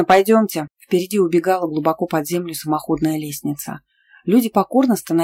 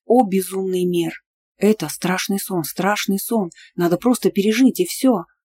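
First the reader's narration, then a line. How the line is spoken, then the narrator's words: Muttered under breath. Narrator (Russian): Пробормотал под нос лорд Лантриер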